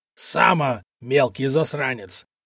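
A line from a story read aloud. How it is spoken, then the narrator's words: Furious growl. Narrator (Russian): прорычал разъяренный купец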